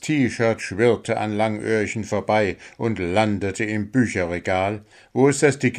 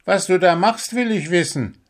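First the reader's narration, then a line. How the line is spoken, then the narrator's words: Shouting. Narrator (German): schrie Langöhrchen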